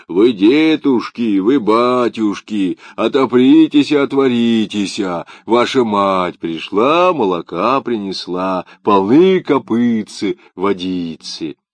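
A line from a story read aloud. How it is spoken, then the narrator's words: Thick, deep shout. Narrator (Russian): закричал своим толстым голосом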